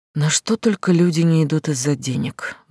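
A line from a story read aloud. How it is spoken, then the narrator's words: Sighing. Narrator (Russian): вздохнула Глаша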